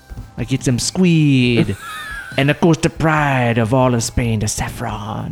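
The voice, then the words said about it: Put-on Spanish accent. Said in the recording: “That's a Spanish accent.”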